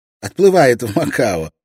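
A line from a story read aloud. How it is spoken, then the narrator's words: Laughing. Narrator (Russian): рассмеялся Горацио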